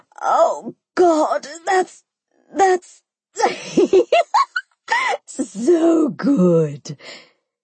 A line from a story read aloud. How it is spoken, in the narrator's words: the chick screamed